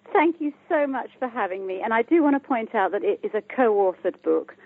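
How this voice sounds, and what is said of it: British accent. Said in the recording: “I'm from the UK, as you can hear by my accent”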